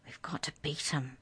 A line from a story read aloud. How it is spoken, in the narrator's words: Jordan muttered